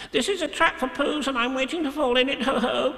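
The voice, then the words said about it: Very fast, squeaky voice. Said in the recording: “he said very quickly and squeakily”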